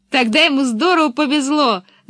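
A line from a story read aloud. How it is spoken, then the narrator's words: Loud laughter. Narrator (Russian): захохотала Пеппи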